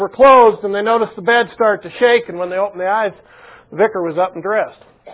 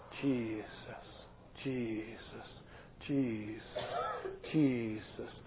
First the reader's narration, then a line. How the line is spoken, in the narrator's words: the six of them started whispering